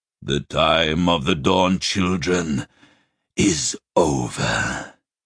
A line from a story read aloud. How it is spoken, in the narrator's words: he rasped